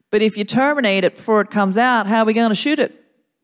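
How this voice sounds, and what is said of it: Put-on Texan Southern accent. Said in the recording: “standard Texan attitude ... Very uh, good uh, accent ... I learned it from Friday Night Lights ... Southern”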